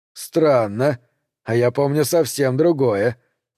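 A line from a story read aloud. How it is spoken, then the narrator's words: Mocking. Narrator (Russian): насмешливо проговорил Дэнс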